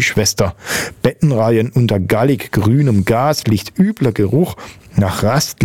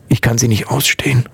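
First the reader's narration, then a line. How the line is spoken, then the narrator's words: Whisper. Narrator (German): flüsterte Susi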